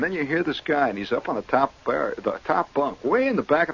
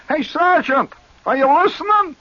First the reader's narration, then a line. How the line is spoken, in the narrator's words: He hollers